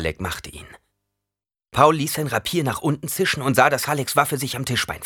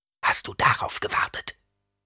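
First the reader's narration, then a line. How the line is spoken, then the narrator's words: Whisper. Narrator (German): flüsterte Paul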